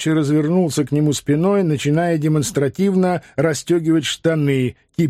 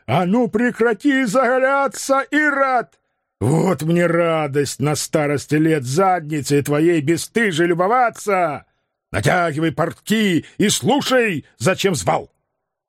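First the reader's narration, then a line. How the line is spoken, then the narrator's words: Gasping, spluttering shout. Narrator (Russian): Дядя ахнул, выплюнул кофе обратно в кружку и заорал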